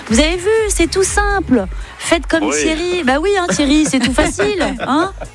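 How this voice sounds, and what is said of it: Put-on Belgian French accent. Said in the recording (French): “j'ai pris l'accent belge”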